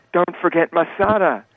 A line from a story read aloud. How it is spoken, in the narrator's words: Jay hollers